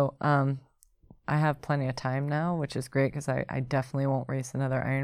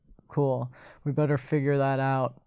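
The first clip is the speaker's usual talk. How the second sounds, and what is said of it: Imitates a man's voice. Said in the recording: “You do a good Aaron impression. ... I get his like man voice”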